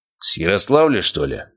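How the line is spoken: Snorting grunt. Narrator (Russian): хмыкнул Обухов

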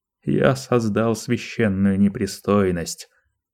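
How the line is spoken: Plain. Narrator (Russian): сказал он

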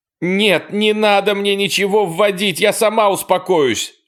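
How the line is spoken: Shouting. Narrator (Russian): закричала она

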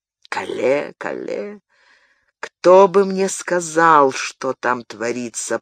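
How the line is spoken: Muttered. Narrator (Russian): пробормотал король

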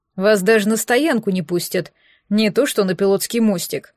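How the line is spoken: Grumbling. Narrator (Russian): пробурчал Нэш

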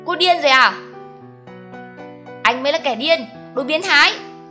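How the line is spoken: Pained furious shout. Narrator (Vietnamese): Anh đau đớn, trợn mắt hét to

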